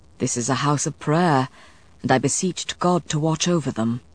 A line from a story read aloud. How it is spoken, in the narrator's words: Matthew murmured